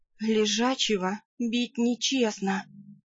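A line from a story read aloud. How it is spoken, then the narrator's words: Hoarse gurgling whisper. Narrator (Russian): прошептала я, слегка удивившись хриплому бульканью в груди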